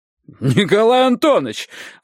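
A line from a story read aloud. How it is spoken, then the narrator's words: Sudden shout. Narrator (Russian): вдруг закричал Ромашка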